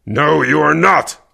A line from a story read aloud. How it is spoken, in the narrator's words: Kervec growled